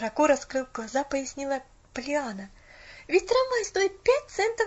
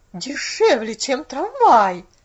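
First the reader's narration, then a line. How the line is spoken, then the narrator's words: Bewildered exclamation. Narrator (Russian): воскликнула миссис Керри в недоумении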